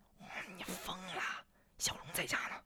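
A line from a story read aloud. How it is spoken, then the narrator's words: Puzzled, low voice. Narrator (Chinese): 应喜不解的，压低声音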